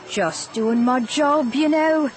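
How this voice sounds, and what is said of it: British accent character voice. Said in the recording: “He had a British accent.”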